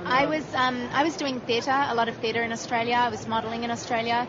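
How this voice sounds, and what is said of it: Noticeable accent. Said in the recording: “I detect the accent. ... Yes, my strange accent.”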